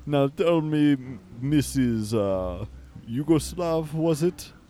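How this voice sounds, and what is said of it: Put-on vampire accent. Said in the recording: “how to do a vampire accent”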